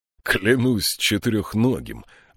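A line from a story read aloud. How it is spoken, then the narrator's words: Laughing. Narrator (Russian): рассмеялся он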